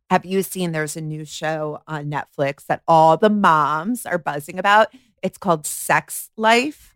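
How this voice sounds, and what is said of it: New Jersey accent. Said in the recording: “Jersey through and through, if you couldn't tell. The accent, as I said, it's not Long Island people. It's Jersey.”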